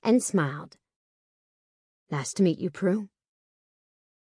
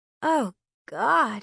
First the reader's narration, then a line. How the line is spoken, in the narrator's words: I moaned